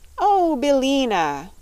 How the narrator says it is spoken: cried Dorothy in a glad voice

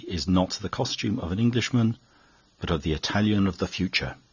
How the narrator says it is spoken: answered gravely

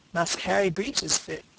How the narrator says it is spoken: said Caesar with a chuckle that exhibited a mouth open from ear to ear

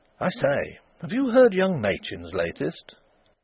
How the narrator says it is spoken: every man who had been in the sports club that night was remarking eagerly to his friends

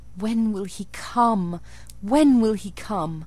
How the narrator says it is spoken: I cried inwardly

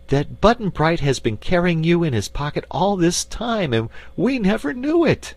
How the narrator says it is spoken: cried Dorothy

